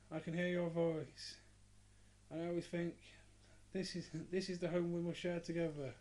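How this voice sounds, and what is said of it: Imitated proper London accent. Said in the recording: “that girl sat there... like the London accent, proper London accent... I'll try and do an example of it”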